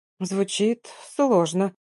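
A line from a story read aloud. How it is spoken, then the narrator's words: Mumbled, making conversation. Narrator (Russian): пробормотала, чтобы поддержать беседу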